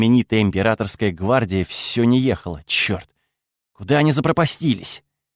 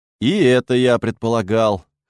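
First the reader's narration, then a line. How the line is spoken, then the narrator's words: Snorting. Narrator (Russian): хмыкнул Лёва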